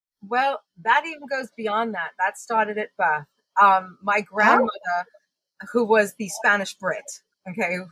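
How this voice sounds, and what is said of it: Mixed Long Island and British accent. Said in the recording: “my accent is this interesting mix of growing up on Long Island and enforcement with my British grandmother”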